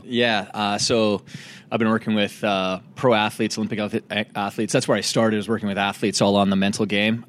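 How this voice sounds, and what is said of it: Slight Canadian accent. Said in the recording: “do I hear a Canadian accent in there? ... There's a little bit of a Canadian accent”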